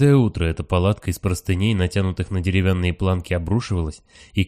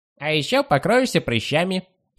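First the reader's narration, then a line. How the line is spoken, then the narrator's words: Squeak. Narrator (Russian): пискнул Вонючка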